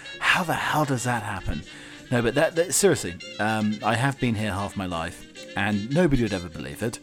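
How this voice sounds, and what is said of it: English accent. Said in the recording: “an expat Englishman ... I can't shake off this bloody accent.”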